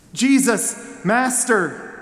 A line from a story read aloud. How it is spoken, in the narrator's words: they called out